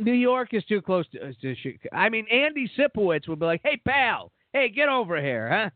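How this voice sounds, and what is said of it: Usual voice. Nothing is said of it.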